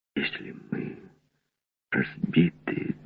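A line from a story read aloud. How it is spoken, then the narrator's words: Distant young man's whisper. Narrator (Russian): донесся шепот молодого Редвуда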